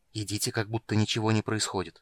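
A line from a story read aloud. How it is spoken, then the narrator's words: Whisper. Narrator (Russian): прошептала Сара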